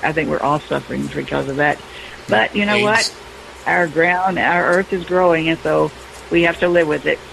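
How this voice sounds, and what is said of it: Voice less clear than usual. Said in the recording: “I'm suffering a little bit, too, with my voice ... My voice is normally a little bit more clear”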